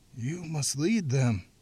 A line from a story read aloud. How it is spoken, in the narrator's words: the Reverend gasped